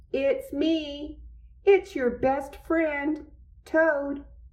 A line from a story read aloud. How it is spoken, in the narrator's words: he shouted